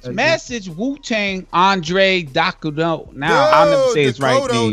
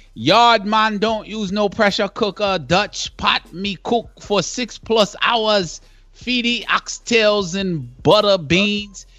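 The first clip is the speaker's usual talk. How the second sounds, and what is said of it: Put-on Trinidadian accent. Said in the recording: “That was Trini accent, man. That's a Trini accent.”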